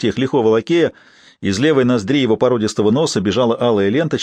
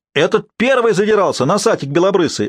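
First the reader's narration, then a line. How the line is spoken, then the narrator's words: Deafening shrieking woman. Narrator (Russian): оглушительно вопила буфетчица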